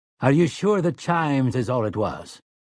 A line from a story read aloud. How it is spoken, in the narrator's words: Callahan asked